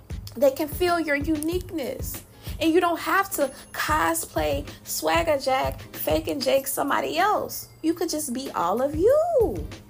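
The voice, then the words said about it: Country Southern Louisiana accent. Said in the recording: “my accent. As country as I am... I'm from Louisiana... I can't be anything but Southern.”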